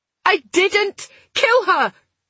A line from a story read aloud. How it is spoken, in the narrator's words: she shouted, the anguished cry painfully loud in the cramped space